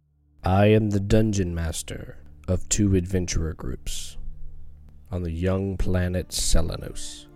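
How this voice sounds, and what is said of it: Creepy voice. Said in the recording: “in a creepy voice”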